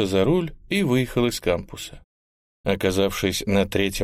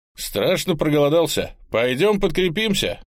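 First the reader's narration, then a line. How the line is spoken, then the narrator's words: Loud announcement. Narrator (Russian): громко объявил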